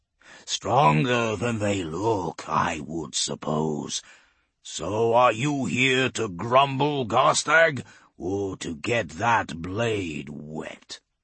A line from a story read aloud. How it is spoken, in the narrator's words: Garstag growls